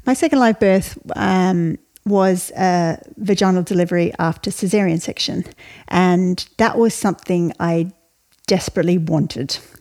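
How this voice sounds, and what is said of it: Australian accent. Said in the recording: “I was raised in Australia, you can tell from my accent”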